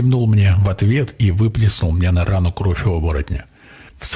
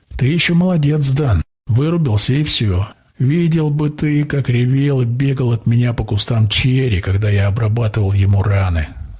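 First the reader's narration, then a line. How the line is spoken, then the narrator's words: Man laughing. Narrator (Russian): засмеялся наемник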